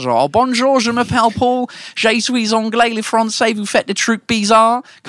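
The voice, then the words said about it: Fake British accent in French. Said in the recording (French): “monter sur scène en mode britannique ... le faux accent ... cet accent de merde”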